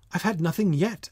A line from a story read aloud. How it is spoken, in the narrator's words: Alice replied in an offended tone